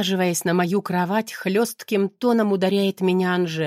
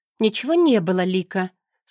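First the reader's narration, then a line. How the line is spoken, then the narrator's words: Calm reply. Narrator (Russian): спокойно отвечаю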